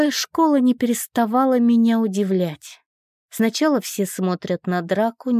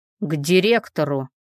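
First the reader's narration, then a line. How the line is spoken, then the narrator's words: Deep bass male voice. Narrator (Russian): Пробасил мужчина, видимо, один из учителей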